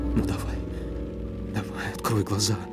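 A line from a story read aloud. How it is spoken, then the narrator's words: Whispered. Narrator (Russian): прошептала она, склонившись над ним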